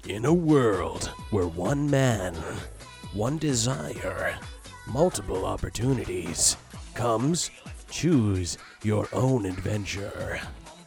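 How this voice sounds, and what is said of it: Dramatic movie trailer announcer voice. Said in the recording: “movie announcer voice”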